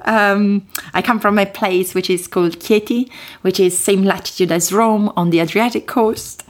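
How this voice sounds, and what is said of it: Italian accent. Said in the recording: “where's your accent from? ... My accent is from Italy”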